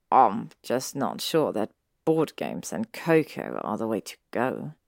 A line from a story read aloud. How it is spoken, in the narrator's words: he mumbled